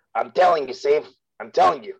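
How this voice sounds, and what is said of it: Poor cartoon character impression. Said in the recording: “terrible Rick impression”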